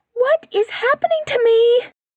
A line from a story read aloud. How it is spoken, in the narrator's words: Candace's thoughts screamed